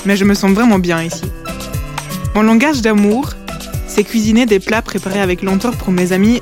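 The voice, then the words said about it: Slight foreign accent in French. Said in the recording (French): “Je ne suis pas née en Belgique, vous allez entendre mon petit accent.”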